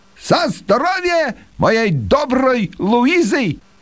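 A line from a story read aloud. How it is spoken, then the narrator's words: Loud. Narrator (Russian): хозяин громко произнес по-русски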